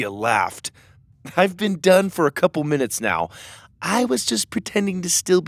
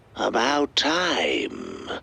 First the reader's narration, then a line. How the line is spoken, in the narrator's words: the doctor hissed